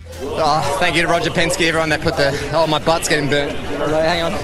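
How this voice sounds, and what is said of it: Out of breath, panting speech. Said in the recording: “I'm out of breath, man. Hang, give me a sec.”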